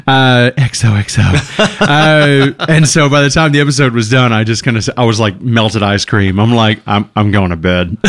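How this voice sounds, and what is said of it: Accent sounds stronger, congested. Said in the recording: “This cold has made your accent a bit more like”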